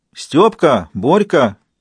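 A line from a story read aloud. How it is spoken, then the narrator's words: Shouted. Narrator (Russian): крикнула баба Катя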